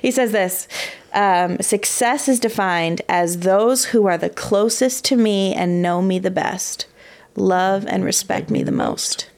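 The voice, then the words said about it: Choked-up, emotional voice. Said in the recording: “that made me a little choked up.”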